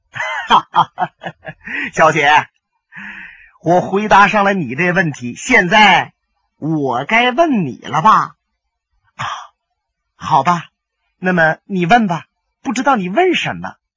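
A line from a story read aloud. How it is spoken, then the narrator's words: Hearty laugh. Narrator (Chinese): 李寻欢忽然间爽朗的一笑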